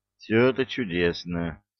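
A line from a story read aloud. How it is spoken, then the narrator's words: Calm low rumble. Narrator (Russian): спокойно прогудел Разумовский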